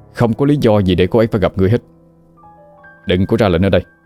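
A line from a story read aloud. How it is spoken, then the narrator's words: Shout. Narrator (Vietnamese): Quân quát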